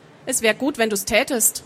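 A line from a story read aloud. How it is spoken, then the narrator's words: Calm. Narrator (German): sagte Lomia ruhig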